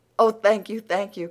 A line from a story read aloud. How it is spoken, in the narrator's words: cried Anne, clasping the packet rapturously